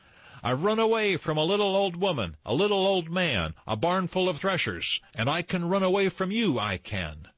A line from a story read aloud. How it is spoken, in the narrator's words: called out to them